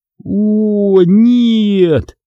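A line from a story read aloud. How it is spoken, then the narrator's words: Groaning. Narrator (Russian): застонал я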